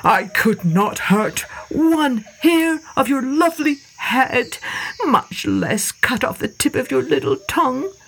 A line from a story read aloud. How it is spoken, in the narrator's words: sobbed the old man